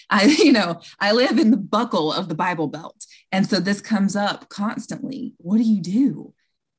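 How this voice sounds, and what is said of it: Long drawn-out Southern US accent. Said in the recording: “I live in the South. If you couldn't tell by my long drawn out accent”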